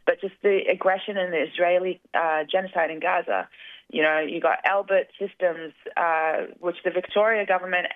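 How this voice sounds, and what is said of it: Strained, hoarse voice. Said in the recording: “I may be losing my voice here”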